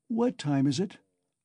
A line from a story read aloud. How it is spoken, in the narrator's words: asked Raskolnikov, looking round uneasily